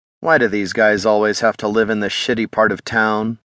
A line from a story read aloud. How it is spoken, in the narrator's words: Mark sighed